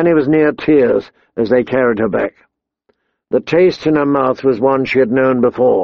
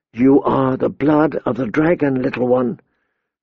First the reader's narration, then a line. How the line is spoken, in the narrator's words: she whispered